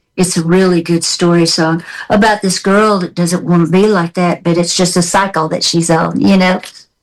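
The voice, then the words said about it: Southern American accent. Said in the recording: “I like your Southern accent. It never goes away.”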